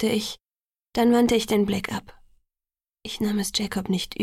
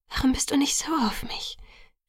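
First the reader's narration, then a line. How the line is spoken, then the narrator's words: Whispering. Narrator (German): flüsterte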